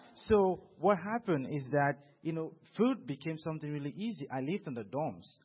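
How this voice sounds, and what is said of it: Non-native English accent. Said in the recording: “I didn't grow up speaking English all the time ... Even right now, they say I have an accent.”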